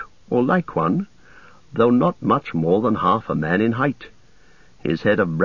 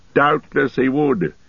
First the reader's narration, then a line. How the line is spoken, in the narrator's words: laughed Gandalf